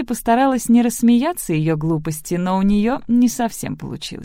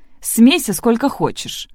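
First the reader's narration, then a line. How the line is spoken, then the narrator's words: Snort. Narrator (Russian): фыркнула Сэнди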